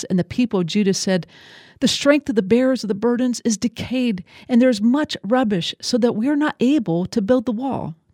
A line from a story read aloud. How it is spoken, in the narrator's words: the people cried out to Nehemiah, saying